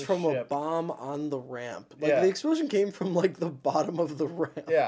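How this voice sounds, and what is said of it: Usual voice. Nothing is said of it.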